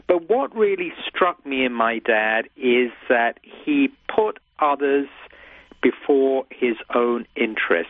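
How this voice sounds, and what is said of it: British accent. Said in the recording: “strange British accent”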